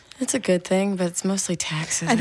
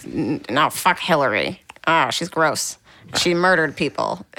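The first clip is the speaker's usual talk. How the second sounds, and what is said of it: Imitates another person's voice. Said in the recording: “Is that your dad's accent?”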